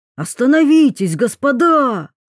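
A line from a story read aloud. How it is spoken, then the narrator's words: Shouted again. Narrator (Russian): вновь крикнул кто-то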